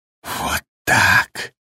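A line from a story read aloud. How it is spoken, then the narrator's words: Whisper. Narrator (Russian): прошептал Джек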